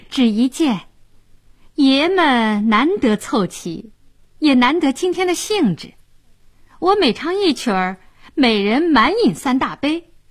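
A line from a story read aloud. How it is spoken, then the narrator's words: Laughing. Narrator (Chinese): 小娥笑道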